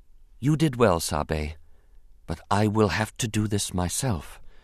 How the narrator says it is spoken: she said quietly

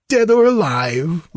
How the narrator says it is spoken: laughed Peleus

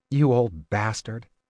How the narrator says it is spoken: Kylar said

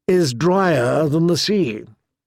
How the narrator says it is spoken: murmured Lady Oakheart with a bitter smile

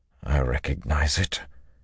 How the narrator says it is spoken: he told her, his voice suddenly hoarse

